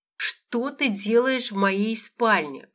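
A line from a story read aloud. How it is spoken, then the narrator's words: Creaky voice through teeth. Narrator (Russian): процедила Лола скрипучим голосом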